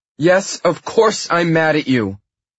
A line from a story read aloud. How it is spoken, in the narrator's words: she yells